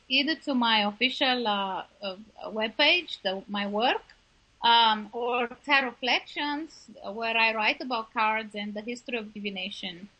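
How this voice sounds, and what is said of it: Transylvanian accent. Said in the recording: “my Transylvanian accent ... your accent was perfect”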